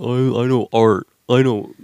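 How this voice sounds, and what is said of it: Imitates another person's voice. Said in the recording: “That's my impression.”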